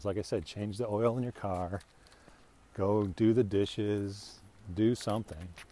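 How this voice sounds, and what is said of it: Dulcet radio voice. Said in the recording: “you got that radio voice ... the dulcet tones”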